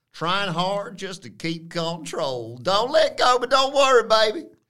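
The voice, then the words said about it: Lyrics sung in a put-on accent. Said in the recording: “Doing an accent.”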